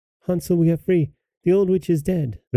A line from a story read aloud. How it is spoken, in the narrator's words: Gretel cried